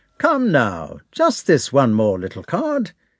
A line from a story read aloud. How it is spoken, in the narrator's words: he said in a cheerful voice